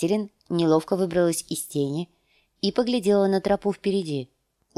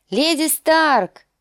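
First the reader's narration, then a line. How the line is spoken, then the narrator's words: Distant shout. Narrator (Russian): крикнула Мия с другой стороны пропасти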